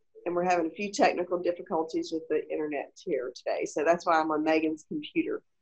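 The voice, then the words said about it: Hoarse, fading voice from a cold. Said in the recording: “I'm losing my voice. I've gotten some type of head cold.”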